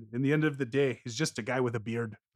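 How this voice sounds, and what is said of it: Put-on Irish accent. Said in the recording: “Is that your Irish accent?”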